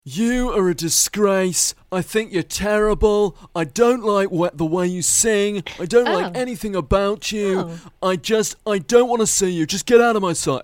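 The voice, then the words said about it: Imitates another person's voice. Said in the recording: “I'm doing an impression of somebody ... Are you Simon Cowell? ... Yes, I'm Simon Cowell”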